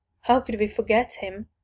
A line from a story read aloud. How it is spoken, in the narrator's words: Dinah mutters to herself